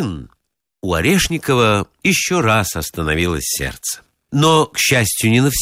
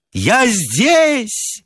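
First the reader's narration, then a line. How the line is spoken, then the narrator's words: Loud yell. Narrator (Russian): заорал на весь театр Орешников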